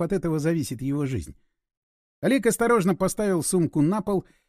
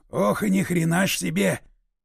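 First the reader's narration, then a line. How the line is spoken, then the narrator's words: Loud whisper. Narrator (Russian): громким шепотом выдал Лев Николаевич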